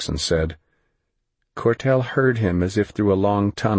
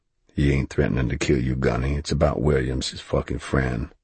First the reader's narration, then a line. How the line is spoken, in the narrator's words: Jackson added quietly